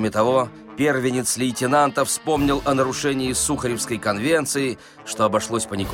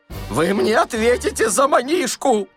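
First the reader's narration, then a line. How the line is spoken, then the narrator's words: Angry shouting. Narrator (Russian): злобно кричал Паниковский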